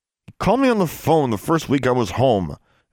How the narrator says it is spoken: Alexandra said through clenched teeth

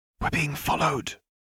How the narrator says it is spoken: whispered in his ear

